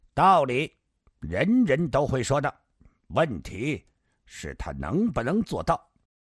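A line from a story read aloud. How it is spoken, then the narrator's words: Cold, stern. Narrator (Chinese): 上官金鸿沉着脸冷冷说道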